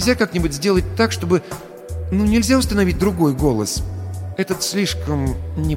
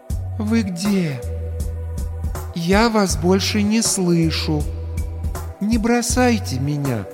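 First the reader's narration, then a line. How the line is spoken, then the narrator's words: Gentle, clear, as to child. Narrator (Russian): Ласково выдал Медмат, отчетливо, как ребенку проговаривая слова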